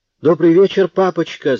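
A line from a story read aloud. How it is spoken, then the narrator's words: Daughters squealing. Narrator (Russian): завизжали дочки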